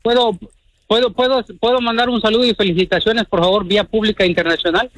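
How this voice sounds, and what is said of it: Formal radio announcer voice. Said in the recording (Spanish): “Tiene voz de locutor ... ¡Es locutor este vato! ... Es muy formal.”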